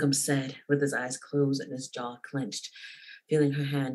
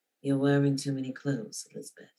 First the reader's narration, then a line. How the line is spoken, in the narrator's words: Darcy said, his voice husky